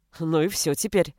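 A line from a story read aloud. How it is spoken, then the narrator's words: Policeman's snort. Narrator (Russian): хмыкнул полицейский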